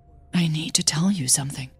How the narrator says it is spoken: Hannah whispered urgently

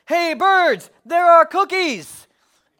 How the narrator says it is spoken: He shouted in a loud voice

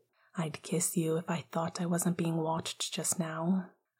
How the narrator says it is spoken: Sirius said under his breath

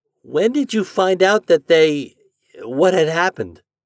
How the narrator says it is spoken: asked Homer timidly

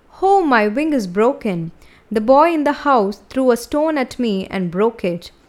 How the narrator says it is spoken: cried out

